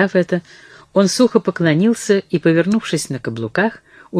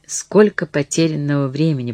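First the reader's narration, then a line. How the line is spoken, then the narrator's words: Whisper. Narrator (Russian): прошептала она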